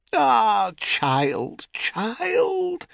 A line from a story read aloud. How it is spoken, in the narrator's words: said Calanthe with a moan